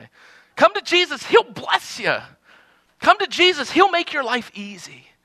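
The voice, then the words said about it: Put-on weird preacher accent. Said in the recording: “They always have that weird accent too, don't they?”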